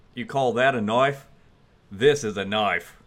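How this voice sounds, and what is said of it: Put-on Australian accent. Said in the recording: “Give them your best Australian accent ... that was so good”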